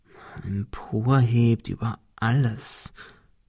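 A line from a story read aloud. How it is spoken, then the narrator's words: Murmur. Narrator (German): murmelte Ben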